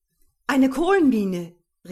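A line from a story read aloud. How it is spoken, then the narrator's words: Exclaiming. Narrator (German): rief ich aus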